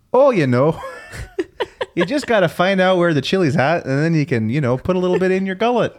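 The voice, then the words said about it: Put-on Upper Michigan accent. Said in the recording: “Do your Uber voice, because that blows my mind, because I can't even do that, and I'm from there. ... That's Canadian. ... It's Uber.”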